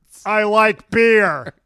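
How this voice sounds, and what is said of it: Imitates another person's voice. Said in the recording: “I love that impression. ... It sounded like an impression.”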